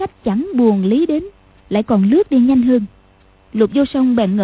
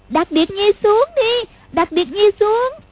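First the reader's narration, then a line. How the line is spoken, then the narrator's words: Frightened hurried cry. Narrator (Vietnamese): Lục Vô Song cảm thấy sợ quá, vội kêu lên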